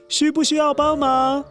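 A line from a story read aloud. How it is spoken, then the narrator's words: Distant shout. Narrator (Chinese): 不知道是谁在大喊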